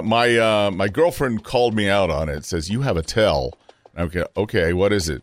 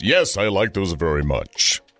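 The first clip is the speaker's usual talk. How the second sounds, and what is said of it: Deliberately lowered, deeper voice. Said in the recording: “To be convincing, I have to lower my voice.”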